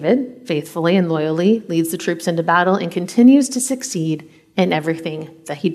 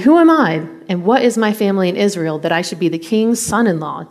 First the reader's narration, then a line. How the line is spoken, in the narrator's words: David exclaimed